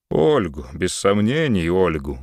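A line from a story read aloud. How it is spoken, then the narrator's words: Tired sigh. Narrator (Russian): устало вздохнул Муравьев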